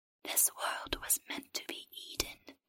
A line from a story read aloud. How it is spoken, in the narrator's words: the creature whispered